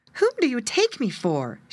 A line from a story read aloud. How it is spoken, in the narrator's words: exclaimed angrily